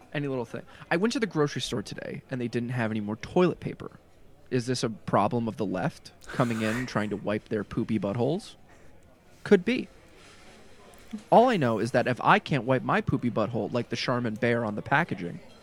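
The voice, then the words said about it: Imitates another person's voice, up-down inflection. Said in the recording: “He does have that like weird inflection to his voice ... Which is 90% of my impression. Like, I don't sound like Tucker at all ... you do get the up and downs very well”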